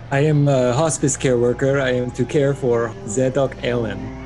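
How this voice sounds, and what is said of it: Eastern European accent. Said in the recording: “Eastern European accent”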